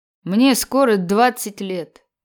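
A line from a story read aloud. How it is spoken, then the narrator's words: Tired reply. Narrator (Russian): отвечал он устало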